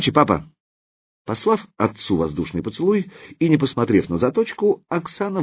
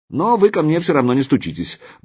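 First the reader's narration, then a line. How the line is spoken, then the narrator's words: Quick addition. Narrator (Russian): быстро добавила она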